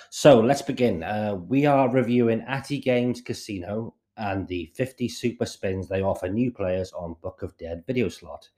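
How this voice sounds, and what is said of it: Scratchy, sick-sounding voice. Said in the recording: “apologize for my voice. ... it's given me a bit of a scratchy throat”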